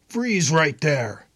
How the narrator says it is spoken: a voice barked

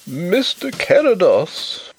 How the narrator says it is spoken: wailed the poor old gentleman in a tremulous bleat

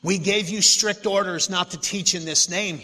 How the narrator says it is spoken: he said

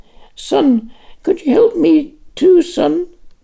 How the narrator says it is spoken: The old woman wailed

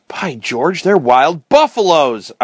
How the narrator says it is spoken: exclaimed

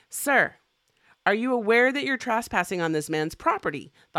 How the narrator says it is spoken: the officer shouted

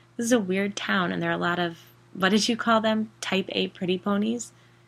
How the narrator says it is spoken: I laughed

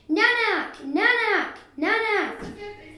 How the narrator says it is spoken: shouting

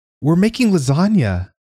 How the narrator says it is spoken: Sis Bontine squealed

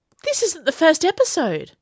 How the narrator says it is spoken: Hebe exclaimed suddenly

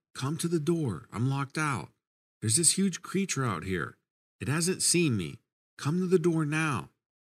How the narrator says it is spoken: trying to whisper, yell

